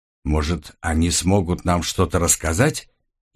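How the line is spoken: Quiet. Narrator (Russian): негромко проговорила Эрса

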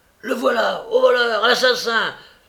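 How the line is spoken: Yelling while running. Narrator (French): Chickweed courir à toutes jambes en criant à tue-tête

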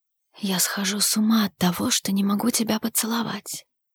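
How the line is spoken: Whisper. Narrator (Russian): прошептал он

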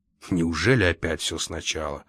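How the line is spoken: Grumbling. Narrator (Russian): проворчал Лакандер

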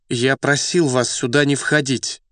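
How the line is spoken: Stern shout. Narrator (Russian): Сурово прикрикнул

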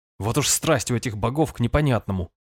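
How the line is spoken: Irritated muttering. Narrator (Russian): раздраженно пробормотал я

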